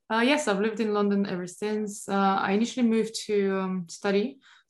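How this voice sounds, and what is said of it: Non-London foreign accent. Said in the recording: “But not a London accent... No, not London accent.”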